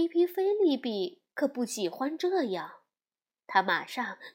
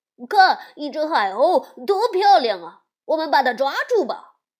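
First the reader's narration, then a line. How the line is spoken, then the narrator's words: Children shouting. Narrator (Chinese): 孩子们大声的喊着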